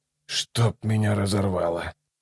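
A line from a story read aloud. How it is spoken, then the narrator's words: Muttered. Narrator (Russian): пробормотал Ном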